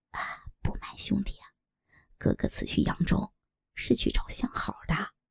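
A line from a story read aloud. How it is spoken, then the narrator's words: Sly, lowered voice. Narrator (Chinese): 尤八一脸坏笑，压低声音道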